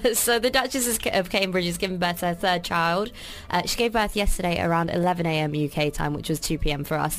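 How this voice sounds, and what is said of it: Posh British accent. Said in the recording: “she's got a British accent. It sounds posh.”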